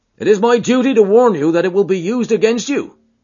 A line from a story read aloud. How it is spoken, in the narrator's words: cried the inspector